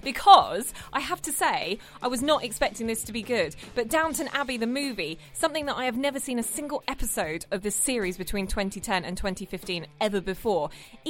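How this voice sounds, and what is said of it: Clipped British accent. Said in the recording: “you can see a change of voice in here ... having a bit of a clipped British accent.”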